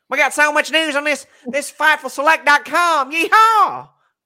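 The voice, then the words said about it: Fast auctioneer-like exaggerated voice. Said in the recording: “You're like an auctioneer or something... That's how Denise makes me sound... Denise does this terrible impersonation of me.”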